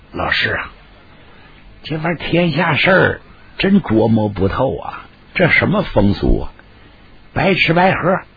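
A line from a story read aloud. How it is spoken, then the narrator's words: Amused, low voice. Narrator (Chinese): 李琦一看乐了，压低声音跟黄天霸说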